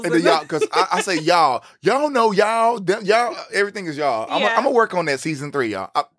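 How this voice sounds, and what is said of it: Southern Texas accent, long vowels. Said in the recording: “she loves our accents ... you picked up on the little southern accent, the little countryness ... the long vowels and the y'alls”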